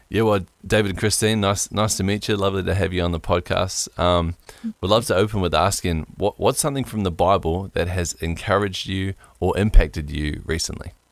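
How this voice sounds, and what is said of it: Mixed New Zealand international accent. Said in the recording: “I don't sound American, and I don't really sound particularly Kiwi either ... what we call an international accent ... I get Australia every day over here”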